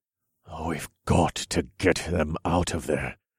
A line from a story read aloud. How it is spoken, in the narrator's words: I growled as I ground my teeth together